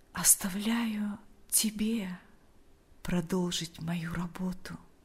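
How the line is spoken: Quiet. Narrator (Russian): тихо произнес он

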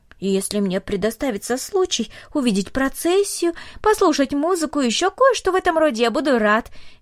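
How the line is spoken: Cheerful. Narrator (Russian): весело сказал он

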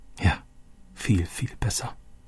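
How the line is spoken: Said softly. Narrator (German): sagte Roberto leise

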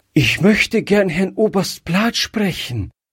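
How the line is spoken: Breathless. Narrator (German): sagte Gretchen noch atemlos

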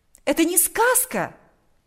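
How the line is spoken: Exclamation. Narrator (Russian): воскликнула она

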